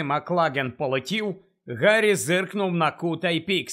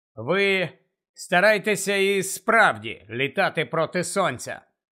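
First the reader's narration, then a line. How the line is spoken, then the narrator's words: Reluctant grumble. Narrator (Ukrainian): неохоче буркнув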